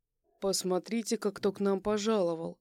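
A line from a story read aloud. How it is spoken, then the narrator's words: Mocking. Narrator (Russian): Он насмешливо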